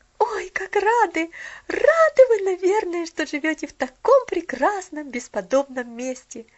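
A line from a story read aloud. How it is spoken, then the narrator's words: Girl's excited exclamation. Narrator (Russian): воскликнула девочка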